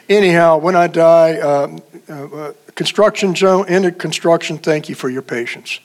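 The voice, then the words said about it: Emotional, choked-up voice. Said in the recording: “I get emotional. ... You find yourself to be more emotional.”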